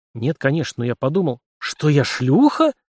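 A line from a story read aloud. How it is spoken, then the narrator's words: Hissed in anger, young woman. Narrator (Russian): прошипела красная от злости девица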